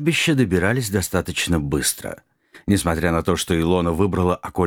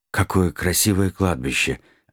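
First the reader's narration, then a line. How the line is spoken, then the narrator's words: Envious breathy exclamation. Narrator (Russian): завистливо выдохнул Нед Гамильтон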